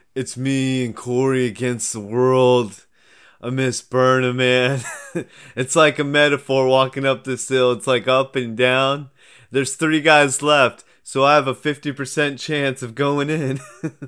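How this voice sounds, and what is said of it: Imitates another person's voice. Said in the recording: “do your best impression of Devin doing an impression of Nelson”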